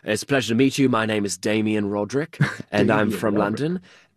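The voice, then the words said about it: Put-on British accent. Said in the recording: “pretending to be British men ... Please tell me you had an accent to go along with it. Oh, of course. You know, we'd be talking like this”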